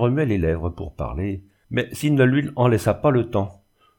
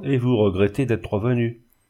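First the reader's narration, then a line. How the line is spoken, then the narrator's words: Moaning voice. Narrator (French): dit-il d'une voix gémissante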